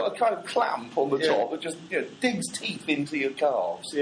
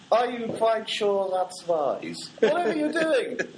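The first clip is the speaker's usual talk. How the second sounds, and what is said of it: Put-on German accent. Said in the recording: “they do it with a German accent”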